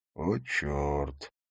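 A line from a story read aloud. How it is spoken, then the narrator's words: Quiet utterance. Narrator (Russian): тихо произнес Харри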